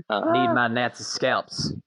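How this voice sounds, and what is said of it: Imitates another person's voice. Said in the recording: “Good work on that impression.”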